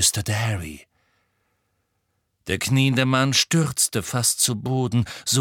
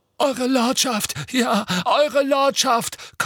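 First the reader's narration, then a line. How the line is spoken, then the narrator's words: Hoarse relieved panting. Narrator (German): keuchte Rookwood mit vor Erleichterung heiserer Stimme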